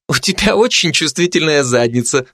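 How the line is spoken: Laughing. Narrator (Russian): засмеялась Бородинская

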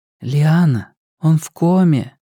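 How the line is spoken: Gently spoken. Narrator (Russian): мягко проговорила Настя

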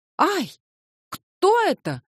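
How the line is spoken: Drunken frightened scream. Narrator (Russian): закричала Бубнова, пьяная и растрепанная

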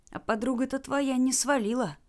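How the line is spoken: Whisper. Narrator (Russian): прошептал он

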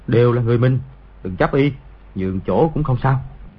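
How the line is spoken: Soft murmur. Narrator (Vietnamese): Lý Lực Thế khẽ nói

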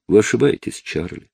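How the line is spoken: Soft, sincere. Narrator (Russian): произнесла мягко и искренне

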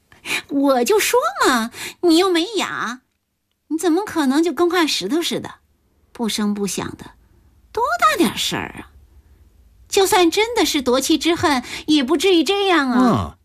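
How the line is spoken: Laughing. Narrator (Chinese): 童安安 笑了

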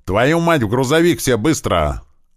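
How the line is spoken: Yelling with curses. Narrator (Russian): орал, перемешивая свои слова матом, маленький

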